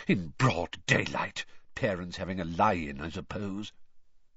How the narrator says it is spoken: he muttered distractedly

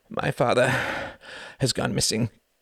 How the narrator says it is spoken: panted Klaus

